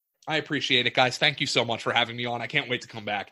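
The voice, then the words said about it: Northeastern American accent. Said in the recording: “My Northeast accent”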